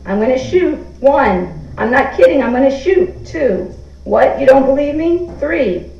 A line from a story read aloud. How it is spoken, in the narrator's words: screamed